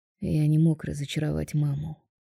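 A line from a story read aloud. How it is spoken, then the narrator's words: Defensive mutter. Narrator (Russian): бормочет Роберто в свое оправдание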